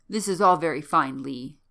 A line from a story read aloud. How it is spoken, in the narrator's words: said Abercrombie Smith curtly